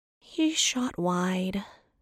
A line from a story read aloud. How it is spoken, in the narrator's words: Seraphina provided, with yet another sigh